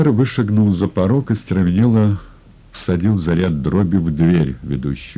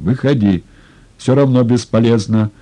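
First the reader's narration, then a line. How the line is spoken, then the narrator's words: Shout from street. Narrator (Russian): крикнул кто-то с улицы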